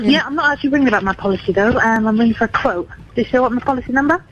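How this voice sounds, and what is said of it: Typical British accent. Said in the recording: “Sounds like a typical British accent, right?”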